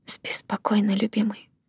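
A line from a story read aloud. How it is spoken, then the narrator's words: Tender whisper. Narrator (Russian): прошептала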